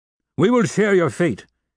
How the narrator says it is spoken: cried Combeferre

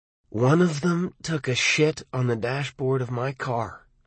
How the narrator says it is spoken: he said coldly

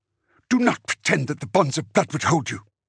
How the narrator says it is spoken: Dimera snarled

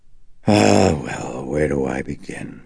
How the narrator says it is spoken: He breathed out reluctantly

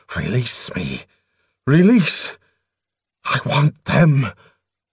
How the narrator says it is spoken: hissing rapaciously

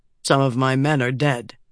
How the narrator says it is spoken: he said, his voice a monotone

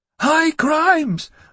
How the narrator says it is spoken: roared the outraged boy vampire

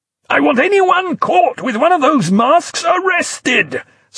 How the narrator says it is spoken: Sutler immediately screamed in his ear

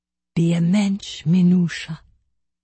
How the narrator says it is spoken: She whispered in my ear

